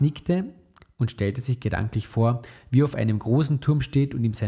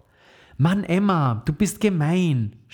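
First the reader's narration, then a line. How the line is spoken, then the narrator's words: Shouting. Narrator (German): schrie Max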